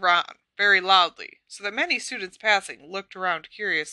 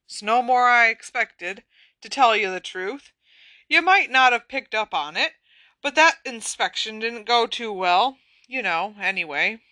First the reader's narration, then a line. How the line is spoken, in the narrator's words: he sighed deeply